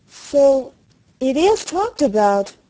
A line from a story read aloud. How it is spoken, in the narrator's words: exclaimed Mary